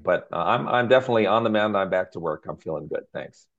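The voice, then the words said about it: Raspy, hoarse voice. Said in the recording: “I'm a little raspy. You can hear my tough guy voice here, but it's all that coughing”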